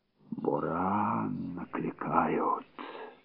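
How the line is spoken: Old woman whispering. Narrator (Russian): прошептала старуха

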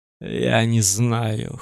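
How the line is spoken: Hoarse answer. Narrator (Russian): хриплым голосом ответил пророк

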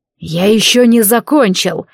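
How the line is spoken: Growled. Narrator (Russian): рыкнул он

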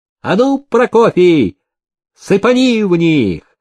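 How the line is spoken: Shout. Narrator (Russian): Никита крикнул

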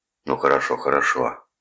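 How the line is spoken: Grumbled. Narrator (Russian): проворчал Калдервуд

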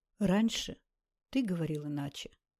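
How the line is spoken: Sad remark. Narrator (Russian): грустно заметила Наташа

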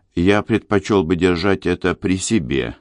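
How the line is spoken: Plain. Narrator (Russian): сказал он

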